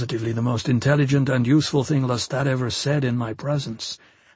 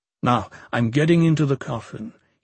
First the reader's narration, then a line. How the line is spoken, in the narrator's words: said in his most disdainful tone